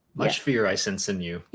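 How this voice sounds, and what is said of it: Solid Yoda impression. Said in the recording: “he does a pretty solid Yoda impression.”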